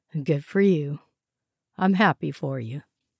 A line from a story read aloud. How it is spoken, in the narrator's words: he sighed